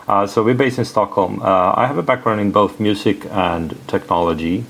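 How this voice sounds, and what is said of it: Swedish accent. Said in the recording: “I'm from Sweden, and maybe that's because you will hear that on my accent, maybe.”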